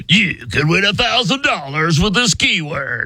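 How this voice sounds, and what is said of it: Mock radio announcer voice. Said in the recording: “my announcer guy impression? ... Me either. I'm still working on it.”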